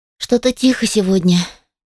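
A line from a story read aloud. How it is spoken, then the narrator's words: Sad sigh. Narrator (Russian): печально вздохнула я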